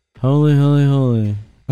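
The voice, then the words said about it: Imitates another person's voice, mushy diction. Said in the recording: “He had that mushy diction, dude... That's my Mace impression... It was really good.”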